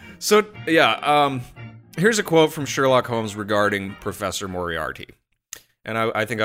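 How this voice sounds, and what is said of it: Usual voice. Nothing is said of it.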